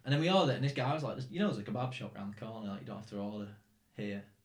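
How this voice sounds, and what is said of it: English accent from near Manchester. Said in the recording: “he just heard my English accent ... near Manchester”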